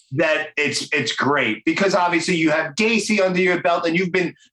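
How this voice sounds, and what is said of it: Brooklyn accent. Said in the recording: “the Brooklyn accent”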